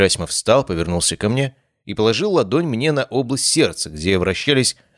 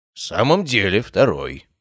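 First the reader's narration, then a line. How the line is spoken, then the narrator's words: Grumbled. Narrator (Russian): пробурчал Герасимов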